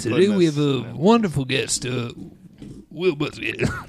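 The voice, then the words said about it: Johnny Carson impression. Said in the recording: “That's my Johnny Carson.”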